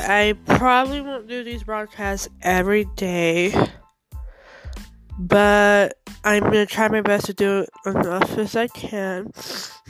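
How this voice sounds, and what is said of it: Stuffy congested voice from cold. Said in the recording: “I have a cold, so that's why I sound stuffy”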